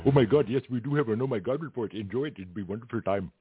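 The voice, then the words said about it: Weak attempted Arab accent, sounding Indian. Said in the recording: “I guess it's more Indian. ... I'll work on my my Arab accents ... I'm not really good this morning with accents.”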